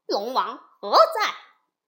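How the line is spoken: Loud call. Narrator (Chinese): 悟空高声叫道

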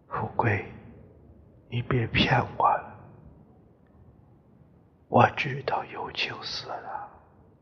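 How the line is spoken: Soft, quiet. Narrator (Chinese): 家珍这时轻声说

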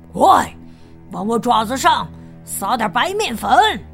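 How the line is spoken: Shouting. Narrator (Chinese): 他 喊着

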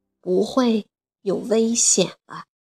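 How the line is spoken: Gentle, slow voice. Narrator (Chinese): 德拉夫拉星人用温柔的声音慢慢地说

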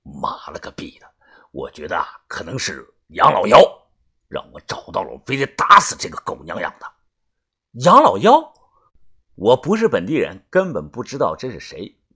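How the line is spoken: Cursing through gritted teeth. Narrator (Chinese): 帮主咬牙骂道

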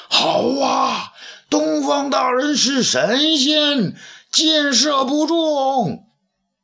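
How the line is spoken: Shouting in unison. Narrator (Chinese): 齐声叫道

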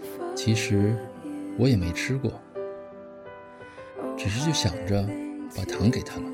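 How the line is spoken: Murmuring. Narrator (Chinese): 小白兔 喃喃地说

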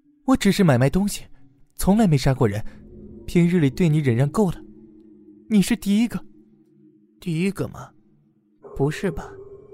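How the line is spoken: Strangled, off-pitch voice. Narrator (Chinese): 小袁的声音已经被掐得走音了

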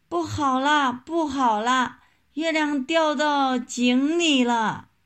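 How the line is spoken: Frightened shouting while running. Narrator (Chinese): 小猴子吓得撒腿就跑，一边大声叫喊

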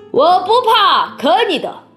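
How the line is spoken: Shouting. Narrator (Chinese): 乔治拉姥姥叫道

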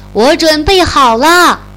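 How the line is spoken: Calling out. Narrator (Chinese): 艾玛 叫道

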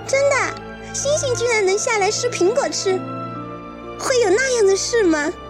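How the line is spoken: Laughing. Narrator (Chinese): 苹果笑了

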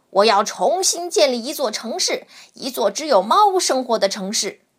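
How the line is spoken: Cat roaring suddenly. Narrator (Chinese): 这只猫突然吼起来

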